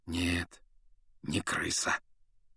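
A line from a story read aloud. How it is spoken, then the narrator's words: Quiet confirmation. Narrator (Russian): негромко подтвердил Люпин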